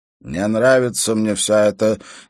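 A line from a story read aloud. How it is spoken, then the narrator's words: Displeased grumble. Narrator (Russian): недовольным голосом пробурчал он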